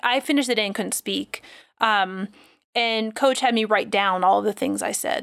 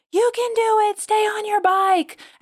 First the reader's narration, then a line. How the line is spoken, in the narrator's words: I was screaming out loud